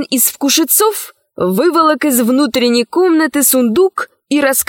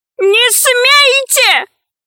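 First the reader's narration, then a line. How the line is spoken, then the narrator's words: Monstrous shouting. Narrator (Russian): кричал кошмар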